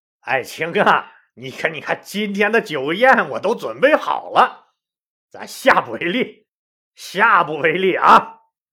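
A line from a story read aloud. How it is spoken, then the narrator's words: Placating, laughing. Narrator (Chinese): 就笑着说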